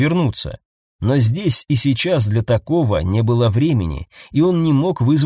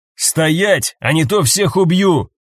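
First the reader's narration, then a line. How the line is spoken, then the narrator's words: Magically amplified shout. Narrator (Russian): крикнул Каэтан, а зачарованные капли дождя усилили его голос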